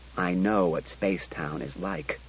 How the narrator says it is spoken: said Bailey

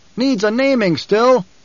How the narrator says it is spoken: A voice from the troop called out

